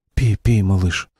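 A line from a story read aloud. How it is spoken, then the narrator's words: Gentle coaxing. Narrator (Russian): ласково приговаривал Навам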